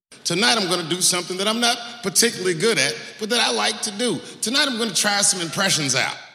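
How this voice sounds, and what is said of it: Usual voice. Nothing is said of it.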